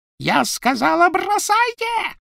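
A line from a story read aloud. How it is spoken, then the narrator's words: Shrieked. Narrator (Russian): провизжала Белатриса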